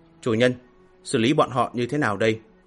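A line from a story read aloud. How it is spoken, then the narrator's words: Respectful. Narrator (Vietnamese): ma đế khẽ khom người nói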